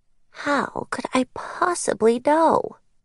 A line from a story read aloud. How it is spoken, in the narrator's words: she purred